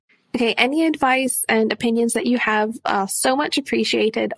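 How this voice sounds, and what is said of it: Noticeable accent. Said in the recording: “Love the accent.”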